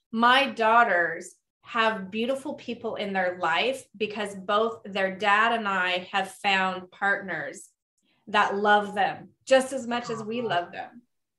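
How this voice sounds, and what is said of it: Choked up, emotional voice. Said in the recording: “getting choked up”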